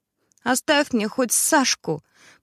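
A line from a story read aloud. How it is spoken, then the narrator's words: Grandmother's tearful voice. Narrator (Russian): проговорила бабушка плачущим голосом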